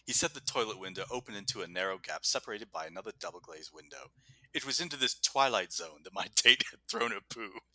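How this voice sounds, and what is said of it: Put-on British accent. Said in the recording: “I can read this in a British accent”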